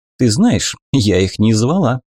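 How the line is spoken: Laughing duchess. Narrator (Russian): засмеялась герцогиня

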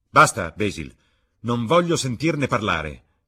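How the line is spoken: Shout. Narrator (Italian): gridò Dorian

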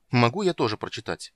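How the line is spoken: Irritated question. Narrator (Russian): раздраженно спросил юноша

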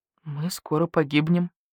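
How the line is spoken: Quiet. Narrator (Russian): тихо сказал Барсукот

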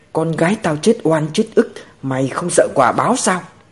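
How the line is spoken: Frantic wailing mother. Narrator (Vietnamese): Mẹ Đồng Tiểu Tịch vừa gào thét vừa điên loạn

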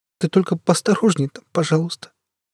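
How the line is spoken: Sobbing. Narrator (Russian): она всхлипнула

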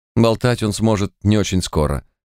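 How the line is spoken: Plain. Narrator (Russian): сказал целительница

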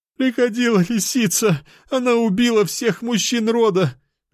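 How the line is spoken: Woman sobbing, then screaming. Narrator (Russian): Женщина начала рыдать, а потом кричать

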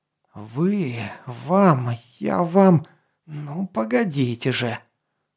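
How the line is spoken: Angry hiss. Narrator (Russian): Злобно прошипел он

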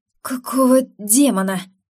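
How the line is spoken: Breathless, hoping it's imagined. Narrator (Russian): выдохнул, надеясь, что ему показалось

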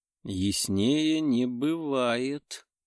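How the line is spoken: Purring. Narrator (Russian): промурлыкала

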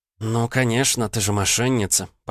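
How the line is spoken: Through gritted teeth. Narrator (Russian): процедила Ванда

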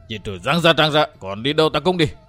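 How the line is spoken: Growling. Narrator (Vietnamese): Thành Cương gầm gừ

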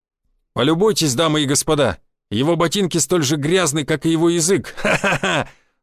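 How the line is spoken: Arrogant shout. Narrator (Russian): надменно выкрикнул Мышкин

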